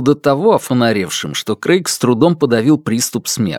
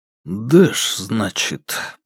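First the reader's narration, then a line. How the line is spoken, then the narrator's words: Barely audible. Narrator (Russian): проговорил его друг еле слышно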